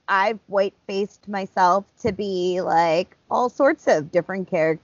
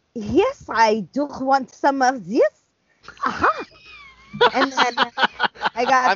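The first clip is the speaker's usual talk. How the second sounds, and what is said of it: Weak put-on French accent. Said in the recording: “I've been working on my French accent. it's not very good.”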